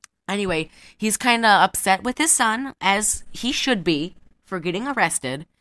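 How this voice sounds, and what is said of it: Usual voice. Nothing is said of it.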